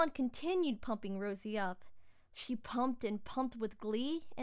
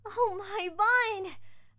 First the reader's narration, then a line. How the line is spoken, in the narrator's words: Rosie gasped